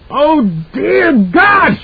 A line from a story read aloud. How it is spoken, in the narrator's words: She screamed